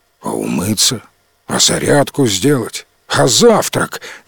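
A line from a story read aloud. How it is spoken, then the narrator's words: Displeased dragon grumbling. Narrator (Russian): недовольно заворчал дракон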